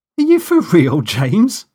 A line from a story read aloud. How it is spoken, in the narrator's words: cried